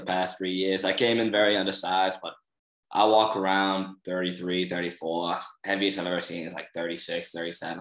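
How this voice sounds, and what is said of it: Boston accent. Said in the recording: “why is this guy talk so much different than the other three guys? ... What's up with the accent? ... I'm from Boston.”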